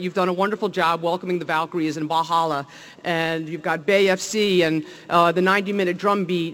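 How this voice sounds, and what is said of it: New Jersey accent. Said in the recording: “you could tell from my accent probably, I'm from New Jersey”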